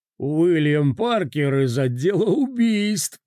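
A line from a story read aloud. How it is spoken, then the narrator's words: Laugh choking into cough. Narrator (Russian): Он начинает смеяться, но давится сухим кашлем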